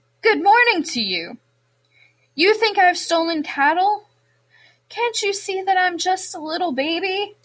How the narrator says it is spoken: said brightly

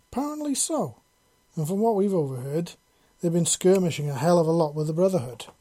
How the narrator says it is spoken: she replied

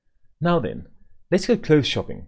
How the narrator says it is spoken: exclaimed Mrs

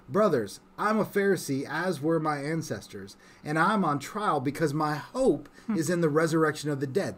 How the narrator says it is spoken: he shouted

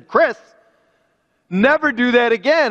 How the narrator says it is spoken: in a very firm voice and fire in his eyes, he said

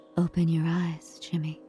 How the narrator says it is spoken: Green whispers

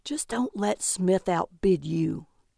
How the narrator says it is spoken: Calvin whispered

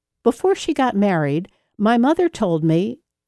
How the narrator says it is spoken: engulfed him in laughter

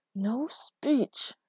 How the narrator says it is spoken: She hissed, whispered

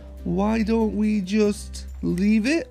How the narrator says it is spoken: suggested Ernestine timidly

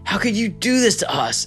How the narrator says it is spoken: Abimelech exclaimed

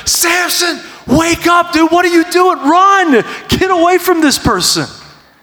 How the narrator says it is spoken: Like, you want to scream into this story and be like

